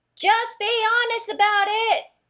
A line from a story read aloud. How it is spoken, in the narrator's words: shouted Joey